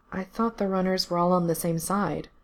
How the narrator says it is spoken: Gerard said quietly

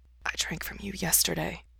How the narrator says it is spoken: Mikey whispers

